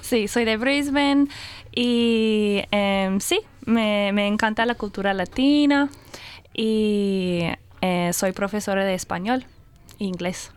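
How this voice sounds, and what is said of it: Spanish with a Colombian-sounding accent. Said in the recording (Spanish): “ahorita ya tienes más ah, acento en... Tu acento es más colombiano”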